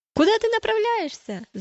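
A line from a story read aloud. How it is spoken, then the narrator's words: Group shouting. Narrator (Russian): закричали они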